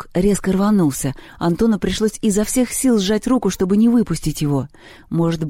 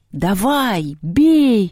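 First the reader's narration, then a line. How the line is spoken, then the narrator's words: Crowd shouting. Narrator (Russian): кричали и в реальности, и в видении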